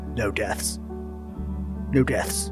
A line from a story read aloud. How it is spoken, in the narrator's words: keeps kind of muttering to himself